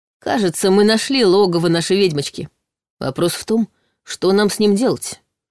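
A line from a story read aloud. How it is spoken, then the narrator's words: Gloomy remark. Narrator (Russian): мрачно заметил Дементьев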